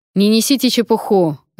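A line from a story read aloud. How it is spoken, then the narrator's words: Barking. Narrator (Russian): рявкнул Вонвальд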